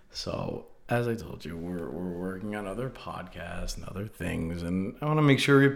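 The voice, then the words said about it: Haggard, worn-out voice. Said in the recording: “my voice is a little haggard today”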